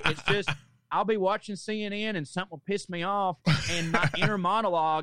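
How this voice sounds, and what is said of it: Southern American accent. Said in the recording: “I have a southern accent”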